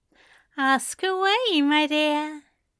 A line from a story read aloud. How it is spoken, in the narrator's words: Aziraphale replied, his smile just as dopey and his words just as slurred